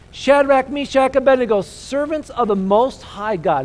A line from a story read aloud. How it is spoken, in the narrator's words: Nebuchadnezzar shouted